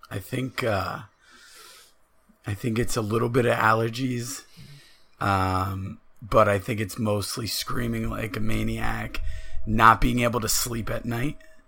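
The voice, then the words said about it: Raspy voice. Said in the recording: “is a little raspy today. Is that because you've been screaming like an animal, or you know, a little under the weather?”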